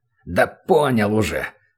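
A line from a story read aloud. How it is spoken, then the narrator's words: Grumbled. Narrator (Russian): проворчал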